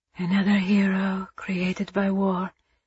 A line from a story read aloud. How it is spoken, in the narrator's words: Eva whispered